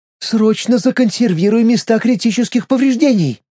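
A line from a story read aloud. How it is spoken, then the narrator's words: Near shriek. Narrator (Russian): Чуть ли не взвизгнула Олеся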